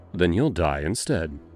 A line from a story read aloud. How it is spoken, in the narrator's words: I said simply, my voice cold as ice